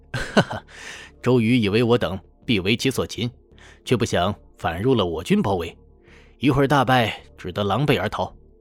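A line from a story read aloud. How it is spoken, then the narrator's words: Laughing. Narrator (Chinese): 赵云笑道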